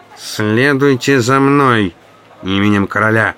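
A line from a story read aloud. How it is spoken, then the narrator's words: Nasal voice close to ear. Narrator (Russian): прогнусавил мне в ухо чей-то голос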